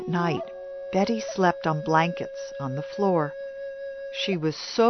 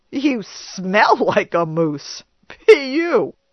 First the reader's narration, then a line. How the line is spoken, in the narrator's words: added with a laugh